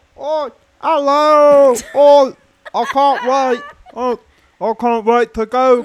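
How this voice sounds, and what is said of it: Put-on British accent. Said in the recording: “I'll do it in my best British accent.”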